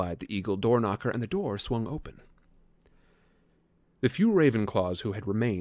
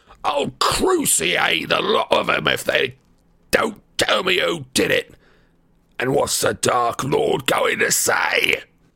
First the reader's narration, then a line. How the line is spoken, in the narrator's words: he shrieked